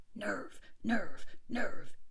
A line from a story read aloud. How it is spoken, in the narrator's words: he panted as he dashed along